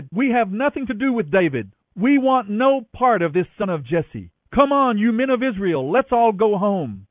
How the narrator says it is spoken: Then a troublemaker named Sheba, son of Bichri, a man from the tribe of Benjamin, blew a trumpet and shouted

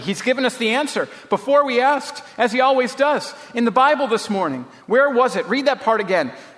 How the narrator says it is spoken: she said excitedly

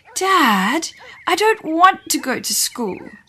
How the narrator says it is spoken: Dina moaned as she ate her eggs

